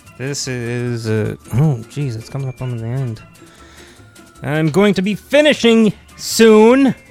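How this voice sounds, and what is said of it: Yelling, loud voice. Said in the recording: “I'm yelling, I do not know. I have no control over that.”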